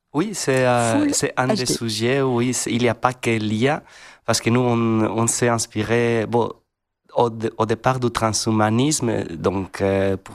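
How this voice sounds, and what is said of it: Regional French accent. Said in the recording (French): “Et vous avez l'accent”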